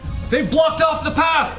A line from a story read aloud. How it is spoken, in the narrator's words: the other guard, who is fooled by the portcullis, he shouts